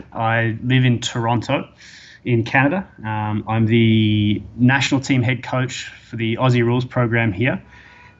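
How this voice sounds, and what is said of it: Australian accent. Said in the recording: “I'm an Australian, obviously. You'll tell by my accent.”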